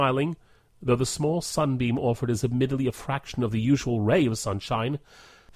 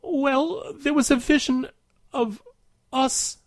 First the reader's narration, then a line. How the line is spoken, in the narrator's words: she manages, her voice becoming tearier as the seconds pass by